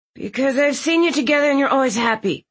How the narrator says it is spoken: he blurted out

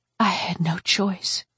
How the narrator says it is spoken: Maxine said quietly

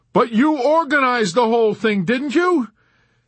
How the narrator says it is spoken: Yossarian shouted back at him

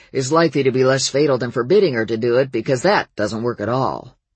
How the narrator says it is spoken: he growled

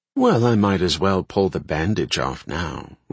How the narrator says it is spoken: Rione said dryly

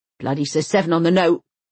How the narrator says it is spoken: he grunts across the room, at no one in particular

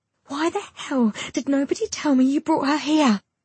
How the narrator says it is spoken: Kelly screeches

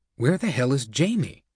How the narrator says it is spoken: Blankfein whispered to Winkelried

